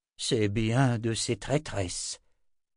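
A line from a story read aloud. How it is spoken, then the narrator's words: Muttered. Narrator (French): marmonna Anna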